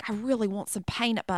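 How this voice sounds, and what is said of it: Put-on Australian accent. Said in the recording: “Your accent is fire. That was really good. ... a really good impressionist.”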